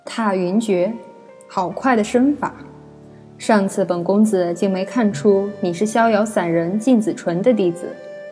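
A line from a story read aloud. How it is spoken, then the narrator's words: Smiling, sincere praise. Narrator (Chinese): 柳灵玉却是没有动，她只是淡淡含笑看着九姨，诚心赞道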